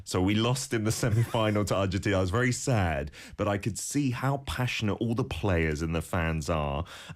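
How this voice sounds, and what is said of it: English accent. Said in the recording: “You might tell from my accent, my home country is the UK, is England.”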